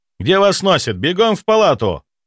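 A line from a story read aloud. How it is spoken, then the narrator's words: Yelling. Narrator (Russian): заорал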